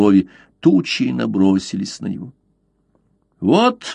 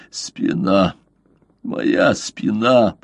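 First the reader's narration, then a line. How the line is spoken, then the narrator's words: Moan. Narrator (Russian): простонал он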